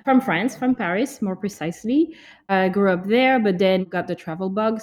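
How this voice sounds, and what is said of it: French accent. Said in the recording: “with that last name and that accent, I am French.”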